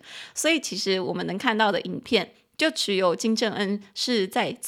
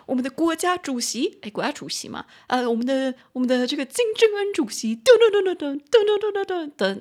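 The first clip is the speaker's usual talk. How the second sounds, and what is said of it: Forceful North Korean state TV anchor. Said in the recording (Chinese): “他的声音是配国家的主播自己在背景用铿锵有力的声音说 ... 那种说说话方式”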